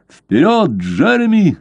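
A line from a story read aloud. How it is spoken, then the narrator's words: Shout. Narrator (Russian): закричал Блад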